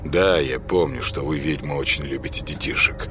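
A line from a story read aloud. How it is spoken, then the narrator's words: Grumbling. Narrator (Russian): проворчал Сергей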